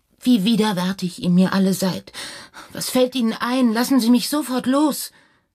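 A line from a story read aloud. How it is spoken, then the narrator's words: Sobbing cry. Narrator (German): Das Häschen rief schluchzend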